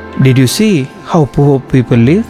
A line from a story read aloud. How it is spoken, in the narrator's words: the father asked